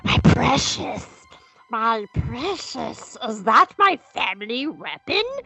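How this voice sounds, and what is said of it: Gollum character voice impression. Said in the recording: “my best Gollum impression”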